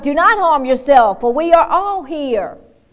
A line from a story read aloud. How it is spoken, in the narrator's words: Paul shouted